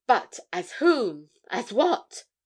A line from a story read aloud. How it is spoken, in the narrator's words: exclaimed Spargo